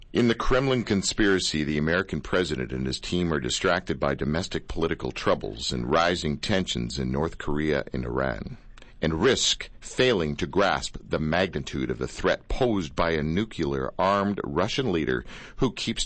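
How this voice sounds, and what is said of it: Announcer-style radio voice. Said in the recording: “my best radio voice”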